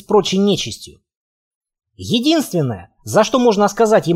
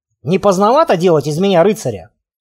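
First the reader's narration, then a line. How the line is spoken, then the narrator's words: Wry snort. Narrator (Russian): хмыкнул я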